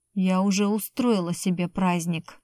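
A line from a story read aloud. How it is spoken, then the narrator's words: Girl, through gritted teeth. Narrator (Russian): процедила девчонка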